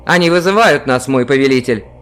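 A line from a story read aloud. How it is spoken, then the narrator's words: Plain. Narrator (Russian): говорит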